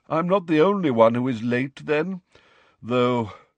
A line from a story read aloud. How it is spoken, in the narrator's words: he sighed